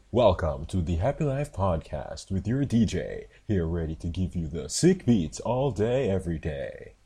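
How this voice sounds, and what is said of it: Hyped radio DJ voice. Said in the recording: “I love, I love that DJ voice.”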